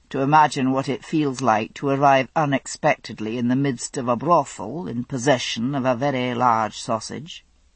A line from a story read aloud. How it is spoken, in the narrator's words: he said dryly